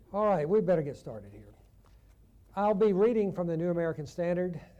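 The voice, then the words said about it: Southern American accent. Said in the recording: “I'm from Chattanooga, Tennessee originally, they noticed my southern accent”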